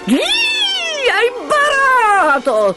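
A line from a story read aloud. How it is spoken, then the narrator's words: Shrieking. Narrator (Italian): strillava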